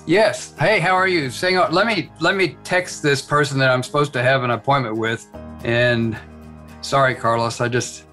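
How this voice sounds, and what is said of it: Soft Texas accent. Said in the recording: “I heard that soft Texas accent.”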